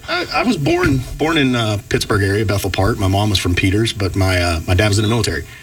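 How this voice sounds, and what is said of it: Southern US Georgia accent. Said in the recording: “the Georgia accent”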